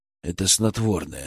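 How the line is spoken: Calm. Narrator (Russian): спокойно сказал я

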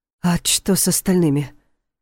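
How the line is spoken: Frightened question. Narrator (Russian): испуганно спросил

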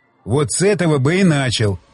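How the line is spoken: Grumbling. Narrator (Russian): проворчал Щербатин

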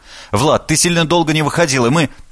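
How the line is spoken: Girl chattering rapidly. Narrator (Russian): Девушка затараторив

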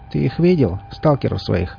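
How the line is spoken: Grumbling. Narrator (Russian): проворчала она

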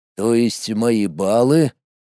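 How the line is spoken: Mutter. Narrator (Russian): пробормотал

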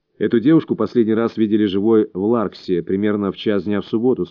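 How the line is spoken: Calm. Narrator (Russian): спокойно сказал Мильтон

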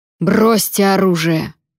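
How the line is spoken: Commanding imperial roar. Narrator (Russian): проревел Вонвальт голосом императора

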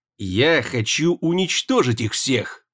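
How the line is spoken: Hissing. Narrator (Russian): прошипел Усара

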